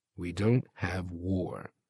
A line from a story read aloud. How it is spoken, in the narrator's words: Tolby answered quietly